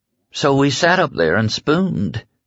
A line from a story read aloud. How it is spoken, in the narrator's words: she said sleepily